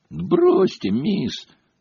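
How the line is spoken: Grumbling. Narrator (Russian): проворчал Фред

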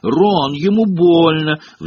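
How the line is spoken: Shrill squeal. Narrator (Russian): взвизгнула Гермиона

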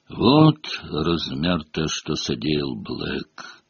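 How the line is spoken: Minister's muffled voice. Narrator (Russian): глухо продолжал министр

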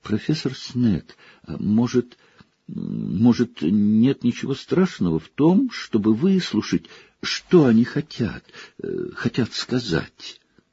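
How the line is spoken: Hesitant, nervous faltering voice. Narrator (Russian): Гермиона, хотя и неуверенно, замирающим от волнения голосом, спросила

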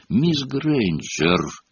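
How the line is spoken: Icy rebuke. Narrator (Russian): Ледяным голосом осадил Гермиону Снег

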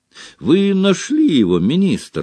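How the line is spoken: Exclaimed. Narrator (Russian): воскликнул Том

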